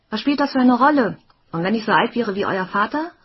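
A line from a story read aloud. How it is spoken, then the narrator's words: Shouted. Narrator (German): rief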